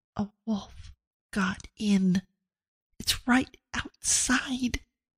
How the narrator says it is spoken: leaned as close as she could to Abigail's ear and whispered

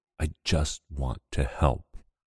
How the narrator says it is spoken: he rasps

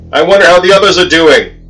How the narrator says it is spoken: shouted above the wind

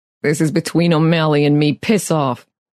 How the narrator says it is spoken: the man growled

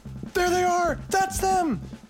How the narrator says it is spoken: They point and yell

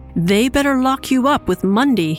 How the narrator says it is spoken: he yelled at Justice Smith in a threatening tone

